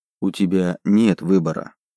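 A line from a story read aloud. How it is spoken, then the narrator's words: Sad, smiling. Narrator (Russian): грустно улыбнулся Солт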